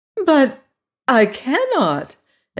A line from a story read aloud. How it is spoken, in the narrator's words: exclaimed Dorothy, greatly surprised